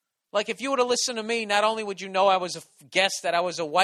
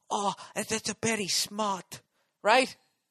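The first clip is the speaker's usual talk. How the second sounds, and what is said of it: Exaggerated mock Asian accent. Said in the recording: “hacky fucking Asian offensive accent”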